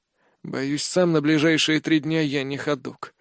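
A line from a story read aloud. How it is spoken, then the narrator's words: Sigh. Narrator (Russian): вздохнул я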